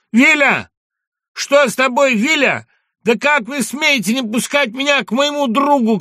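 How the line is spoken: Shouting. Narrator (Russian): кричал Пушкин на жандармов

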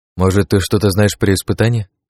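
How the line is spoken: Plain question. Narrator (Russian): спросил я

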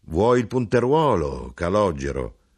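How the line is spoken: Melodious voice. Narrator (Italian): Con voce armoniosa egli domandò

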